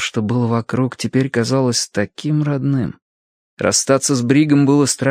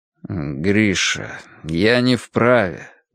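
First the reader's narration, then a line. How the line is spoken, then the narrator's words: Muffled repetition. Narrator (Russian): глухо повторил Горцунов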